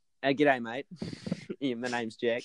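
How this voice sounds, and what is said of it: Put-on Australian accent. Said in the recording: “Aussie accent”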